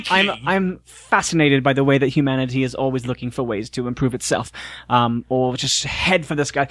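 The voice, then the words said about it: Mock Cockney British accent. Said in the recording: “I'm turning into your voice now ... Dick Van Dyke, Mary Poppins”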